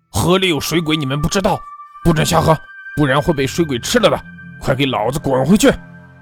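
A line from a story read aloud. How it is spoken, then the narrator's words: Loud roar. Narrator (Chinese): 王五大声吼道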